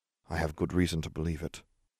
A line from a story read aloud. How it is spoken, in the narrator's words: Harry murmured